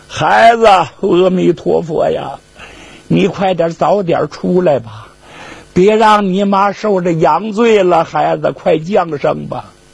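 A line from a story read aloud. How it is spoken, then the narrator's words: Anxious tearful prayer. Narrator (Chinese): 家属在外边合掌祷告，家属都急哭了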